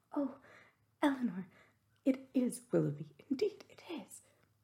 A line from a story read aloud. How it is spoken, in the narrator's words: In the ecstasy of her feelings, at that instant she could not help exclaiming